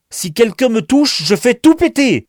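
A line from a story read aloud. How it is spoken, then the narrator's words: Shrill yelp, deranged man. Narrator (French): a glapi le cinglé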